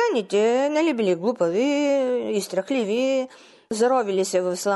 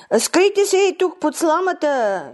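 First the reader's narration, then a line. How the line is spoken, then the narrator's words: Shouting. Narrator (Bulgarian): извикала Кумалиса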